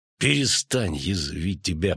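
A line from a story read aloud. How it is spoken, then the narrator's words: Hiss. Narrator (Russian): прошипел Геральт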